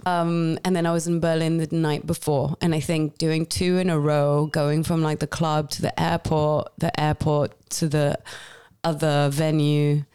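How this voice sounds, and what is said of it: Voice sounds congested from cold. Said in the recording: “you can hear it in my voice. I still have a bit of a cold.”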